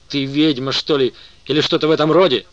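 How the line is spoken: Exclaimed. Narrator (Russian): воскликнул Дэвид

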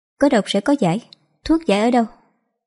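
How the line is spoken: Gentle. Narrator (Vietnamese): Cố Lưu Niên nhẹ nhàng nói

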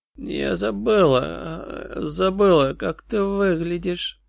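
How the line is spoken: Creaky rasp. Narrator (Russian): проскрипела Сьюзи

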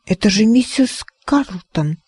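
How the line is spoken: Whispered. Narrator (Russian): прошептала Арабелла

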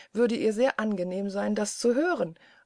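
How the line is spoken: Quiet laugh. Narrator (German): lachte der Famulus wieder auf seine stille Weise

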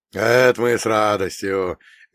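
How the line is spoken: Cheerful old man. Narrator (Russian): весело дедуля

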